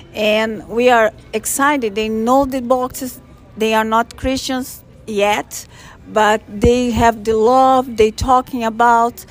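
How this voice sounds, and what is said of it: Brazilian accent. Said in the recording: “I have this accent. It's from Brazil.”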